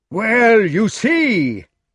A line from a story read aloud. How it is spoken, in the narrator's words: Sir Grummore was shouting